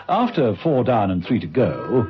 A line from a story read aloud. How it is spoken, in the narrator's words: Steed muttered